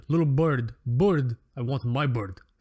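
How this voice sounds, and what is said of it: Really bad, weird Russian accent. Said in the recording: “really bad, weird, like a really weird Russian accent”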